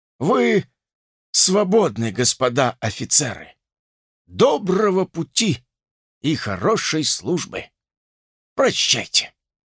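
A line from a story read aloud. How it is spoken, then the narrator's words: Hoarse, iron-heavy voice. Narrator (Russian): Анчутин сказал сиплым, но тяжелым, как железо, голосом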